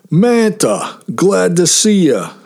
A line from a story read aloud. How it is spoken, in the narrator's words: said Billy cheerfully